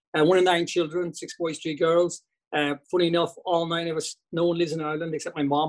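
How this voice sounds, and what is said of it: West Cork Irish accent. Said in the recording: “hopefully my accent doesn't get away from me here, West Cork guy”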